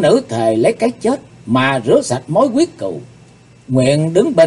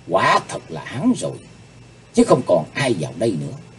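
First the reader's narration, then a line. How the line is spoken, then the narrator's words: Muttering. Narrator (Vietnamese): nàng miệng lẩm bẩm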